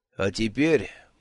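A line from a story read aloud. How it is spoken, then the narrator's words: Measured, even voice. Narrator (Russian): промолвил Ворбис тем же мерным голосом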